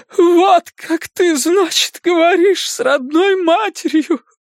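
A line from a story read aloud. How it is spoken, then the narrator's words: Sobbing. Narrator (Russian): вымолвила она сквозь рыдание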